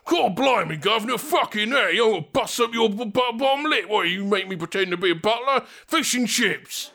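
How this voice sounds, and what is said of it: Exaggerated British accent impression. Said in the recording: “perfect impersonation. In fact, what we'll do is I'm going to do that impression again ... That's what he sounds like on the show.”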